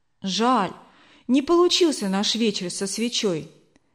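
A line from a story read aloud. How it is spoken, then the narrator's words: Child's sigh. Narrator (Russian): вздохнул Лёва, 10-летний брат Эльвиры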